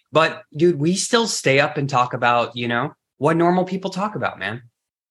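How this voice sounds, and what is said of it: Emotional, choked-up speech. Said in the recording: “I'm getting emotional here”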